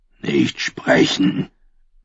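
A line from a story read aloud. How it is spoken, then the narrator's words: Growling again. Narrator (German): knurrte der Ruderer erneut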